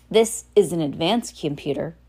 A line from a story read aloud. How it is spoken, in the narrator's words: Nero said